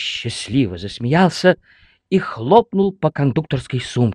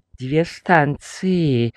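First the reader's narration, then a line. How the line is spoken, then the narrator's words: Gloomy weary. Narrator (Russian): уныло сказал кондуктор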